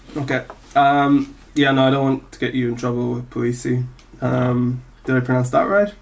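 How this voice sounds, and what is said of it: Speaks with a foreign accent. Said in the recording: “I have an accent.”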